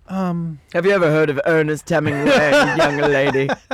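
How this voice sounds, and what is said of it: Old bookstore woman character voice. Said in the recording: “that woman is? When you walk into a bookstore, in the back of the bookstore, blowing off some old books with dust ... that's gonna be my new stand-up voice”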